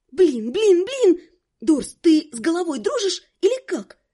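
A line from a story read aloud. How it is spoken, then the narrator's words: Indignant hiss. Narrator (Russian): возмущенно прошипела я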